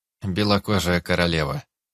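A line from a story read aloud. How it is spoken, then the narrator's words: Dull flat monotone. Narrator (Russian): Глухо и безо всякой интонации произнесла одна из масок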